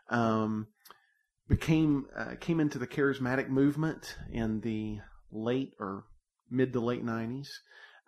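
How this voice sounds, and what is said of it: Southern American accent. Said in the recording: “I've got the Southern accent, if you can't already tell.”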